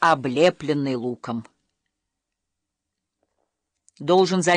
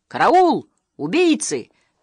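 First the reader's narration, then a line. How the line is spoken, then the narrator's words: Yelled. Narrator (Russian): заорал он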